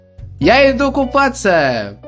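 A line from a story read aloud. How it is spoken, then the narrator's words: Loud shout. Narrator (Russian): громко прокричал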